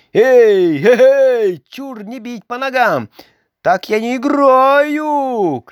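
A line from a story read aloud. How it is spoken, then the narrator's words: Shouting. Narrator (Russian): кричал Карлсон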